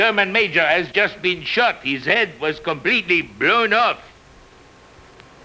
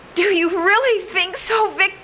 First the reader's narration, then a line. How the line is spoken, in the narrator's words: Ilsa, on the verge of tears, cried